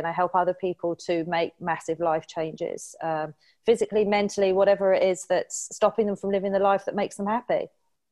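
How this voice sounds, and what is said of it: English accent. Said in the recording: “you're in England by your fantastic accent”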